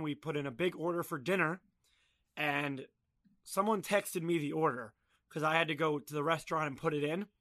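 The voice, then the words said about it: Hoarse, strained voice. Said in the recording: “I lost my voice this weekend.”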